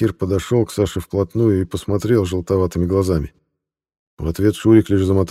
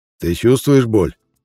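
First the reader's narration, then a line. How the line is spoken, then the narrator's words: Hoarse question. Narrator (Russian): хрипло спросил он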